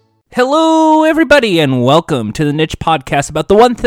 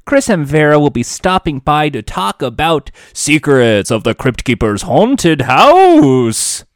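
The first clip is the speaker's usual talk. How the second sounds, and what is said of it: Bad Count Chocula character voice. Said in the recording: “doing a bad Count Chocula impression ... I don't know what the hell that voice was.”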